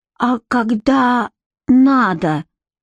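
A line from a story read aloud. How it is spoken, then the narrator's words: Wooden voice, into phone. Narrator (Russian): деревянным голосом спросил Тоши у трубки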